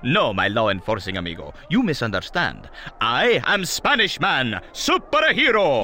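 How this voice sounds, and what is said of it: Put-on Spanish accent. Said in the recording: “I am a Spanish man. ... I can tell that by your accent”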